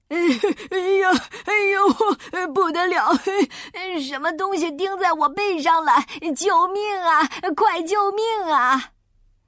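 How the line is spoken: Panicked yelling. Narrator (Chinese): 他一边叫

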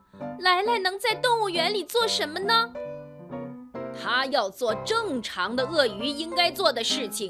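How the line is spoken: Anguished cry. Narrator (Chinese): 温暖太太痛苦地叫道

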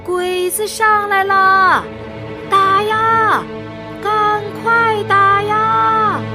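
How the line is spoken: Exhausted, full-throated yell. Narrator (Chinese): 他实在跑不动了 放开嗓子叫

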